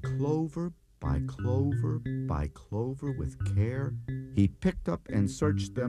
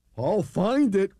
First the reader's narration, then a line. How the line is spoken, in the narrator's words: cried Horton